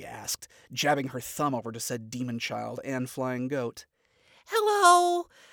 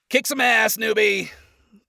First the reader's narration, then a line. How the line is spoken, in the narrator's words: Adam called out with a grin